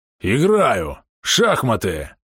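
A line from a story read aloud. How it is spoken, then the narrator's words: Growling. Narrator (Russian): рыкнул Бом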